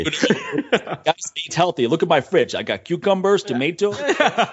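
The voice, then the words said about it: George St-Pierre-style accent. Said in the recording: “sounds like you got George St. Pierre in there too with that accent.”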